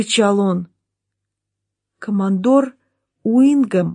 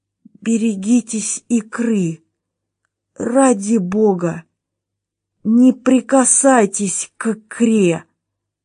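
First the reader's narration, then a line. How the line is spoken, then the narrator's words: Wheezing rasp. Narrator (Russian): Прохрипел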